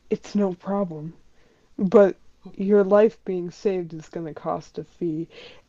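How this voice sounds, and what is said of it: Whispered voice. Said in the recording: “you hear a voice in your head whisper.”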